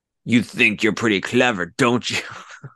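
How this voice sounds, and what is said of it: Put-on accent imitating a character. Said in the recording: “no, he doesn't talk like that. He doesn't have that accent.”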